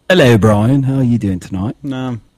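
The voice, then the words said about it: Put-on Cockney accent. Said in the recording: “your accent. ... Just going to go with the Cockney style tonight.”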